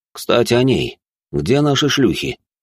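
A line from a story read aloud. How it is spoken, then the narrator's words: Displeased voice. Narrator (Russian): недовольным голосом произнес он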